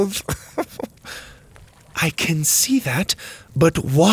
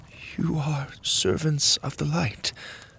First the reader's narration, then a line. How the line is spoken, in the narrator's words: she whispered